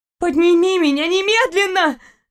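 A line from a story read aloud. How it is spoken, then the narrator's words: Terrified girl's scream. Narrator (Russian): закричала девушка с ужасом, понимая, что висела над пустотой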